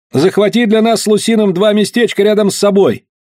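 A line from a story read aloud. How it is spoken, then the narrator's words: Shout. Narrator (Russian): Я крикнул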